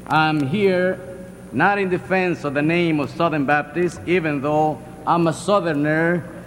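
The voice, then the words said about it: Heavy Latin American accent. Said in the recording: “you can detect that by my heavy accent, deep from the south of the border... my Latin heritage”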